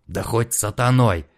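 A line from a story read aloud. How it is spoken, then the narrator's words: Hoarse rasp. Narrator (Russian): прохрипел Франциско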